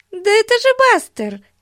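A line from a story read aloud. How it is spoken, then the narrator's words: Exclaiming. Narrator (Russian): воскликнула Бетси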